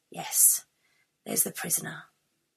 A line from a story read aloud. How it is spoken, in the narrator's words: sigh and say